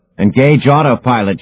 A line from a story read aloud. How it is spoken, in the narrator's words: shouted Demon at the top of his lungs